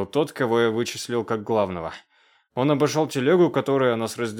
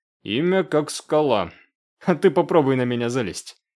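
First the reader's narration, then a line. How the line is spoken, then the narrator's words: Snort. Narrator (Russian): хмыкнул я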